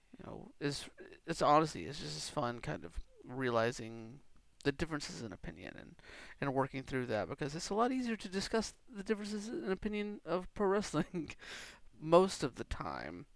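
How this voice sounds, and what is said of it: Slightly scratchy voice. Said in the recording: “My voice sounds a little scratchy, to me at least”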